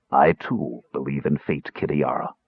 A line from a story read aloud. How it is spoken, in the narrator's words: the Death Knight murmured